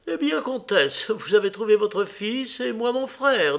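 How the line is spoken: Cheerful. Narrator (French): dit-elle gaiement

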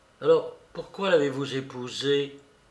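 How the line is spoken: Murmuring. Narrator (French): murmura Lise

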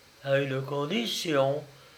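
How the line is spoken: Surprised murmur, princess. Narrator (French): murmura la princesse étonnée

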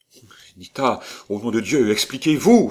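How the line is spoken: Anguished exclamation. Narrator (French): s'écria Léon, pris d'une véritable angoisse

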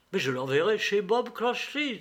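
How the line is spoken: Murmuring, bursting into laughter. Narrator (French): murmura Scrooge, éclatant de rire

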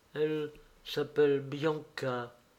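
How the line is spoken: Girl murmuring. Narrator (French): murmura la jeune fille

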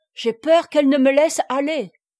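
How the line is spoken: Baron exclaiming. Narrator (French): s'écria le baron

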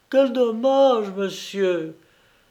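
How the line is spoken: Moaning. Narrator (French): gémit-elle

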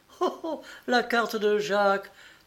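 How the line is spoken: Laughing exclamation. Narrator (French): s'écria Mademoiselle Génial en riant

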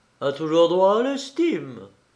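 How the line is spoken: Coaxing voice. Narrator (French): conclut d'une voix câline la belle Susanna

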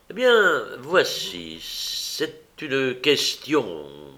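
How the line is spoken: Stammered. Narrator (French): balbutia André

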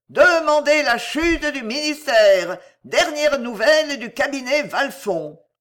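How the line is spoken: Hawkers shouting. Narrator (French): criaient les camelots

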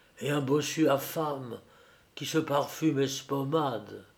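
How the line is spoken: Whispered. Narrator (French): chuchotait Védrine à Fredet

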